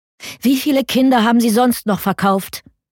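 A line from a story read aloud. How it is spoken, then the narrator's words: Calling after someone. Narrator (German): rief hinterher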